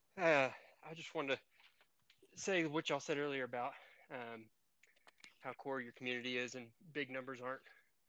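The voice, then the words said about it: Out of breath, panting speech. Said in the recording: “Sorry, I'm out of breath. ... You going on a jog? ... I'm in the middle of Murph”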